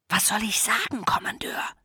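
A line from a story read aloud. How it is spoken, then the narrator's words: Hissed. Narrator (German): zischte Volker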